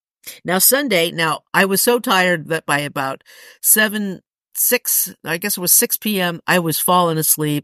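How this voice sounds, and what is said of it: Scratchy voice. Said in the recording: “my voice is scratchy today”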